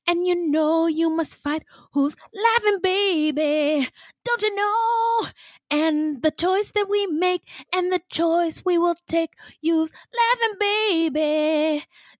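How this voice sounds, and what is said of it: Sung imitation of another person's voice. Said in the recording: “that's my Michael Jackson impression”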